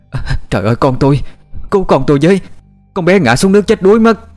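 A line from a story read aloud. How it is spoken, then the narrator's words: Panicked scream. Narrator (Vietnamese): Tiếng của bà Phấn hét lên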